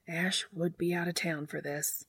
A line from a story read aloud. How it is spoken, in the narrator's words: she muttered